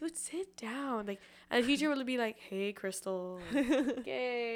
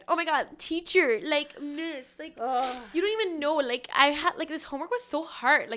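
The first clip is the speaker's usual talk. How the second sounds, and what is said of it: Put-on Latina accent. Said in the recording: “I did a Latina accent”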